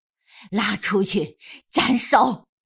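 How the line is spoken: Furious command. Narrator (Chinese): 眼见得南宫若神志恍惚，景太后不由得气怒交加，愤然狠狠命令道

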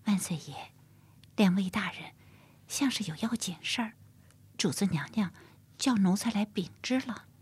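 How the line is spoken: Whispering. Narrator (Chinese): 赖娘小声在乾隆的耳边说着

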